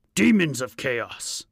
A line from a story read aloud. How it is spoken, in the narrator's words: he roared